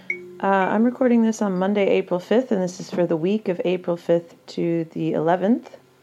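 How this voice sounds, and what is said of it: Early-morning voice, just woken up. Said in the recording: “As you can tell from my voice, this is the first thing I'm doing in the morning.”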